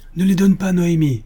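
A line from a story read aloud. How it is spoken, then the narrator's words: Shouted. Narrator (French): crie Louarn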